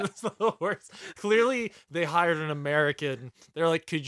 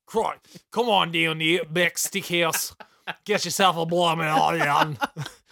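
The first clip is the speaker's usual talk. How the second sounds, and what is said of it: Put-on Australian accent. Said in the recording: “I like to go diagonally when Australian ... could you do an Australian accent?”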